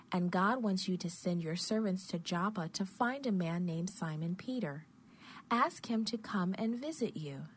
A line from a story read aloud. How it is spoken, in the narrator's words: the angel said kindly